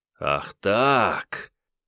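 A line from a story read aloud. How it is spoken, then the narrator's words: Growling like wild beast. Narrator (Russian): Зарычав, словно дикий зверь, Анимподист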